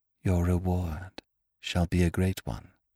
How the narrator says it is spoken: whispered, even more softly

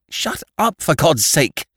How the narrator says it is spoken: cried Annie fiercely, as if in torture

